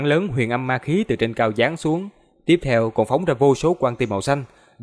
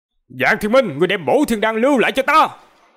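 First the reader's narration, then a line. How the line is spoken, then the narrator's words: Furious roar. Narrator (Vietnamese): Hai mắt Cực Âm sư tổ như muốn phúng ra hỏa, gầm lên nói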